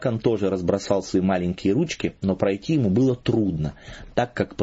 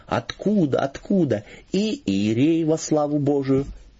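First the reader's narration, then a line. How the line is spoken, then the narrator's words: Joyful. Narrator (Russian): он говорил радостно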